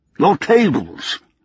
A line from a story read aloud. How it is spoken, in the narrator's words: he said impatiently